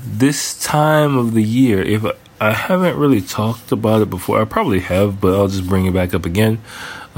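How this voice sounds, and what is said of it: Congested, stuffy nasal voice. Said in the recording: “people are suffering like hell from hay fever right now... You might be able to hear it in my voice... I've just been like oozing snot from my nose all day”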